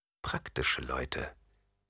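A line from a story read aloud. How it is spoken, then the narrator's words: Murmur. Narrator (German): murmelte Jessica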